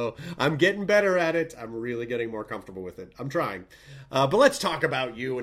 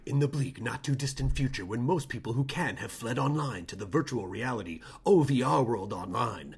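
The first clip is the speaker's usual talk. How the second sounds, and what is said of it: Dramatic advertisement announcer voice. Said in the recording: “I'm going to do the voice. I'm going to do the voice as if it were like an ad.”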